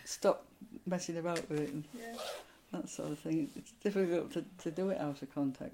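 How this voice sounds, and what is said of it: Strong northern English accent. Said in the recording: “I've got a strong northern accent anyway. But it's not a dialect accent.”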